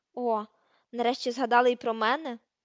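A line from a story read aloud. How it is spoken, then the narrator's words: Grumble. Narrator (Ukrainian): буркнув Рон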